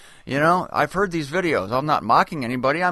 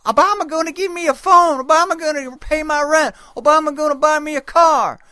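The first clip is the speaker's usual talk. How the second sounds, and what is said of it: Imitates other people's voices. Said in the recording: “I'm imitating them quite perfectly. Nearly 100% accurately.”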